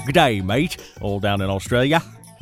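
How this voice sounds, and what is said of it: Attempted Australian accent. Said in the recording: “I can't do an Australian accent”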